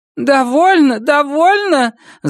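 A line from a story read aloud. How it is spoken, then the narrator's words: Squeaky. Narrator (Russian): запищала Иннет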